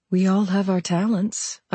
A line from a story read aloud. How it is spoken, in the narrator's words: I said, my voice calm